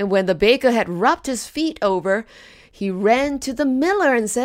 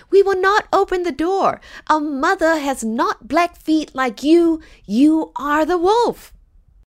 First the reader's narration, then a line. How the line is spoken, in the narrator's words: the children cried